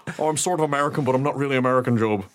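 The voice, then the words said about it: Weird, vaguely American put-on accent. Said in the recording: “That weird accent that Pierce Brosnan was doing.”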